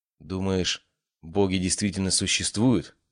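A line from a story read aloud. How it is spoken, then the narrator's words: Sudden quiet question. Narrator (Russian): вдруг тихо спросила Ария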